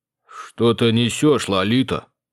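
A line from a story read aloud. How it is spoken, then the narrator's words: Mumbling. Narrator (Russian): мямлил Алекс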